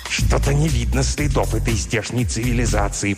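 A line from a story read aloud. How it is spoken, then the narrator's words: Hiss. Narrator (Russian): прошипел, наконец, Плагдрк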